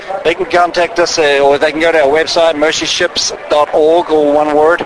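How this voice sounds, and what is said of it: New Zealand accent. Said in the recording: “I don't hear a hint of a Texan accent... New Zealander or Australia?... I am a New Zealander”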